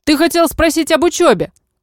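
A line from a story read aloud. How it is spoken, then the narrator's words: Shout from behind. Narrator (Russian): крикнул мне демон вдогонку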